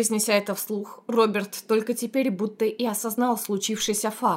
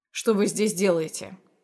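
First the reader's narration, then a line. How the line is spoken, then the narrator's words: Icy cold inquiry. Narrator (Russian): осведомился ледяным тоном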